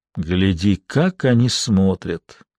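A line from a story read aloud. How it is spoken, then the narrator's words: Father, sighing heavily. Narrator (Russian): тяжело вздохнув, промолвил отец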